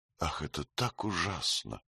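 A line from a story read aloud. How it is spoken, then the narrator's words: Quiet. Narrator (Russian): ответила Анна Михайловна тихо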